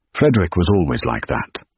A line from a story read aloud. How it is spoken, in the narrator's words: Ambrose said